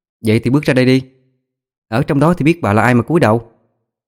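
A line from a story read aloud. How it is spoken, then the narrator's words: Scornful raised voice. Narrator (Vietnamese): Thanh trà cười mũi, cao giọng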